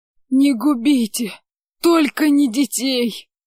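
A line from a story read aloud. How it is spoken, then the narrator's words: Pleading peasant. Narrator (Russian): Взмолился мужик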